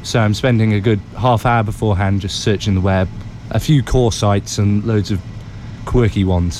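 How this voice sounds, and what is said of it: English accent. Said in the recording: “I've got an English accent, I sound good on the news”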